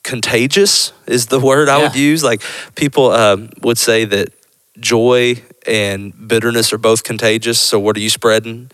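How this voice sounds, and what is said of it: Country accent. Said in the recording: “I sound so country.”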